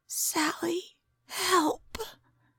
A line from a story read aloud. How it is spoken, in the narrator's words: her roommate whispered